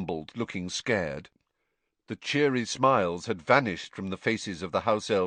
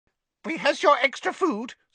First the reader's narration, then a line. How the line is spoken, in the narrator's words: squeaked an elf